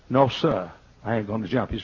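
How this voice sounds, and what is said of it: Southern American accent. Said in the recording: “he used this kind of accent, like all Southerners do, black or white”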